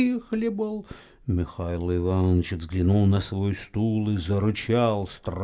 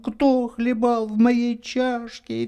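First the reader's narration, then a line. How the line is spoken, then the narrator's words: Thin high squeak. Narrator (Russian): Мишутка запищал тонким голосом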